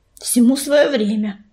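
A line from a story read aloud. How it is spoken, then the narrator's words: Grumbling. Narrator (Russian): проворчала пепелица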